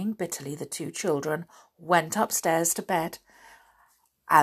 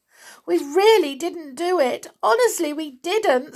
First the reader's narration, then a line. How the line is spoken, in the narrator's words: sobbed Winnie